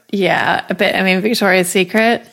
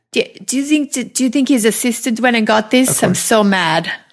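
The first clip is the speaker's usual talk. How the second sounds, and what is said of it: Imitated German accent. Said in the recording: “She has a German accent.”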